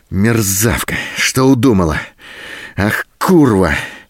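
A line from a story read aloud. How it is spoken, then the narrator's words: Furious hoarse rasp. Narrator (Russian): В то остывающем, то снова вспыхивающем бешенстве хрипел Голубин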